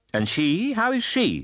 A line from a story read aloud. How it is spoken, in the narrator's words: said my aunt sharply